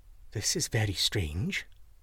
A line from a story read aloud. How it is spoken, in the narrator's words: whispered the goose